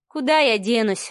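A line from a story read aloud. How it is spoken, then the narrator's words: Sighing. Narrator (Russian): вздохнула Маша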